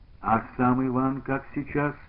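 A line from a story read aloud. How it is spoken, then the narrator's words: Plain. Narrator (Russian): спросил Кружилин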